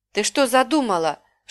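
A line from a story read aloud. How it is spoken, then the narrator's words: Whispered shout. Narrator (Russian): шепотом закричал он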